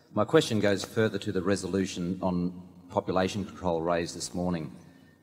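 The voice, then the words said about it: Australian accent. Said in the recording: “I'm from Sydney, Australia... I'll speak a little slower so my accent doesn't throw you”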